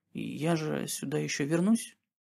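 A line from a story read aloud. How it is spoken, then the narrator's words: Quiet melancholy question. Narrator (Russian): Ему вдруг стало очень тоскливо, и он тихонько спросил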